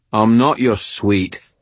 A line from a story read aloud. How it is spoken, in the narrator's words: Binder said, his voice annoyed